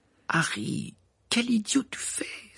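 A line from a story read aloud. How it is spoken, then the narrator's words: Exclaimed. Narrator (French): s'exclama Ron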